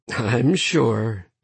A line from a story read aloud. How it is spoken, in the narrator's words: Sloane said softly